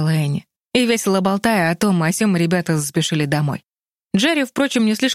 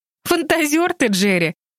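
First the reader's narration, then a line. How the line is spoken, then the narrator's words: Laughing. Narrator (Russian): рассмеялась Энни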